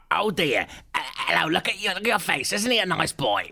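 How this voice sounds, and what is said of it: Bad imitation of another person's voice. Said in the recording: “a bad impression of Bruce Forsyth”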